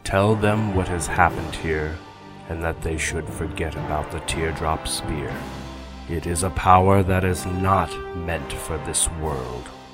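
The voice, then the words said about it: Calm, measured character voice. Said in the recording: “in a calm voice.”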